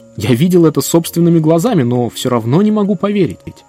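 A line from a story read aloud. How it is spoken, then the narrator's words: Exclaiming. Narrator (Russian): он воскликнул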